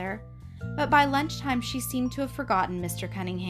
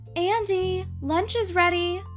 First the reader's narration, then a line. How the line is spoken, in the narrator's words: Mother called out the door